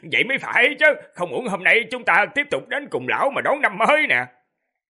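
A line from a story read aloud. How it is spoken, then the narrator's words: Man laughing loudly. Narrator (Vietnamese): Người đàn ông cười lớn nói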